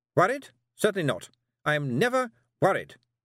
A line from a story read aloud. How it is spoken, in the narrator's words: snapped Miss Tick